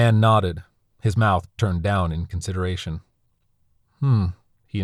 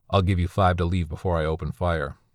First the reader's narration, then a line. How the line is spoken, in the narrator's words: the coyote said, his voice slate